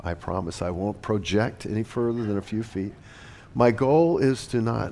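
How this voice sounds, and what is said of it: Rattly voice from a cold. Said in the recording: “I have a cold ... my voice is a little rattly”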